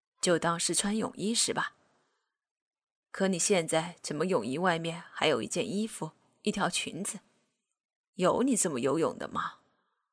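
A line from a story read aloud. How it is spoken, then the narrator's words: Plain. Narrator (Chinese): 说着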